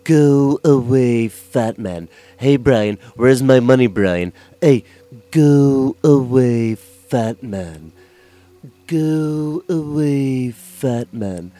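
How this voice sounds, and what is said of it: Cartoon character Stewie voice. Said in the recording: “y'all want to hear my Stewie? Yeah, my Stewie is pretty on point.”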